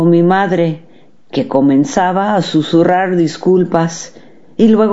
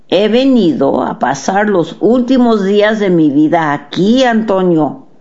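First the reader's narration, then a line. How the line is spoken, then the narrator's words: Plain. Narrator (Spanish): dijo Última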